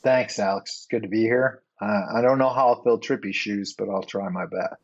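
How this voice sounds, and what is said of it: Midwestern American accent. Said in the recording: “the Midwestern accent quotient on this show today is going to be infinity”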